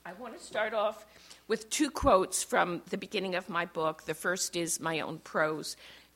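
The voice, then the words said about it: Hoarse voice. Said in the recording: “excuse my hoarse voice”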